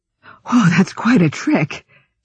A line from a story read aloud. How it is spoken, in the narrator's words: she gasped